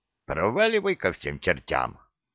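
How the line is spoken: Grumbled. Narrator (Russian): проворчал

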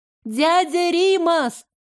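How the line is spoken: Shout. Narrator (Russian): Лара крикнула

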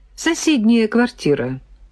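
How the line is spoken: Calm. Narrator (Russian): спокойно ответила Нина Антоновна

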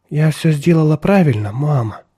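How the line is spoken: Timid little girl asking. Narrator (Russian): робко спросила малышка

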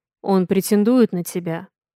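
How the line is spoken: Low muffled growl. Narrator (Russian): Глухо рычит Авалон

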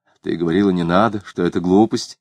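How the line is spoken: Muttered. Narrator (Russian): Клим пробормотал

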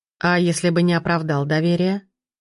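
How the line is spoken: Even-voiced question. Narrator (Russian): ровным голосом спросил Пирожков

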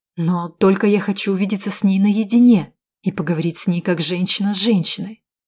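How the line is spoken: Plain. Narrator (Russian): сказала я

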